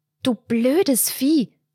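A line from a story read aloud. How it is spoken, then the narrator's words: Hissed, holding back tears. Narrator (German): zischte sie und presste die Lippen aufeinander, um nicht loszuweinen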